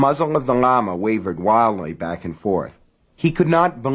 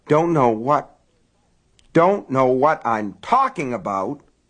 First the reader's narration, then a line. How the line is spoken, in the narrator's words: Frank sputtered